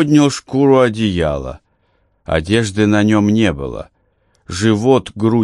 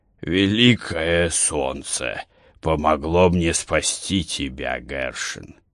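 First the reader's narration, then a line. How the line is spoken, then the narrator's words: Muffled hoarse old voice. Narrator (Russian): Голос у старика был глухой, сиплый, словно простуженный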